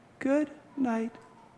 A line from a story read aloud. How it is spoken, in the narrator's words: says Dad in a faraway voice